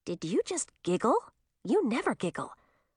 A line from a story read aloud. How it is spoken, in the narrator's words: whispered